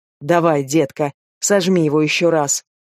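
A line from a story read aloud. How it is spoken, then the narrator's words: Growled. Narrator (Russian): зарычал я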